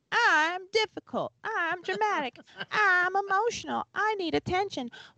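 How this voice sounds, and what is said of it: Imitates another person's voice. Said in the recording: “I have an impression of my daughter ... That's my impression of my daughter.”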